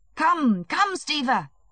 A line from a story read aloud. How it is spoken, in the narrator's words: shouted Levin, feeling his heart beginning to beat more violently